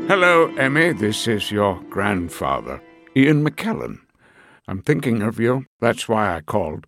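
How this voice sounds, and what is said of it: Dignified old British Ian McKellen impression. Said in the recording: “like a super dignified old British person ... give me your Sir Ian McKellen”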